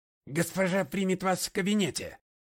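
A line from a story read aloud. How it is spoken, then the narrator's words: Barked, housekeeper. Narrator (Russian): гаркнула экономка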